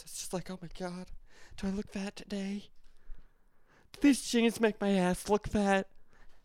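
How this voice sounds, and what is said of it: Insecure character voice. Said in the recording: “the voice again... That's the other voice in my brain... That's the insecure voice.”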